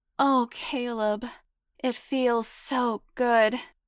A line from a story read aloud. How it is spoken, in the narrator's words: she moaned out loud, quivering with arousal